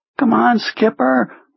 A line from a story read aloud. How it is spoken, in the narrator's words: he pleaded